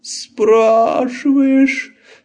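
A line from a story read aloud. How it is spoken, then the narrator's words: Moaning. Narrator (Russian): опять застонал Лабан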